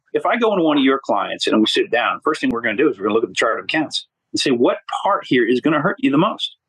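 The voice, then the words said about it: Hoarse, passionate voice. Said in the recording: “I know I'm getting hoarse talking about this. You can hear my passion in this thing”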